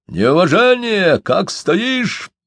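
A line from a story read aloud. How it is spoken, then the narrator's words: Yelled. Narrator (Russian): заорал Иван на Карпа Бердышова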